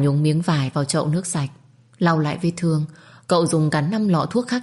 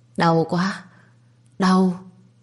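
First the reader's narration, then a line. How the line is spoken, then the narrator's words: Stammering in pain. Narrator (Vietnamese): lắp bắp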